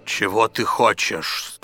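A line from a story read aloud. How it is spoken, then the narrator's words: Thunderous voice. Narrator (Russian): спросил джин громовым голосом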